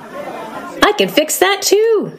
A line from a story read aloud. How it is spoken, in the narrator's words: shouted Badger happily